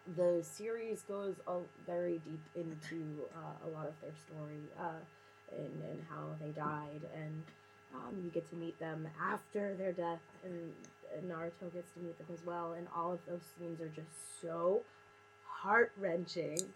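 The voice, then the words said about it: Emotional, teary-sounding voice. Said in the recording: “I'm a big crier. I don't know if you can tell by my voice. I'm like, I've been emotional this entire time.”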